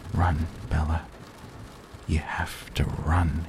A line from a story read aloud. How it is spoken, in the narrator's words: he whispered, terrified